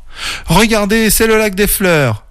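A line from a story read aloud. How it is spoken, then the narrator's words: Shout. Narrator (French): cria Camille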